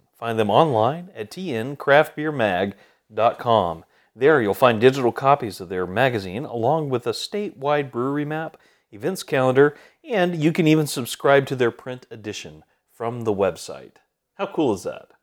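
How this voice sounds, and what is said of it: Excited upbeat public-radio announcer voice. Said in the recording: “your excited NPR voice... it's not as boring as NPR voice... like if the guy at NPR is having a really good day... I'm an NPR and I'm on an upper”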